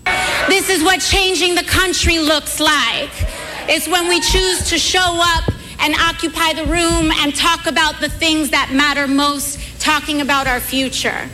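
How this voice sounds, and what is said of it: Put-on revival preacher accent. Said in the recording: “apparently she has gotten in on this accent business ... she's doing the revival meeting approach, I guess.”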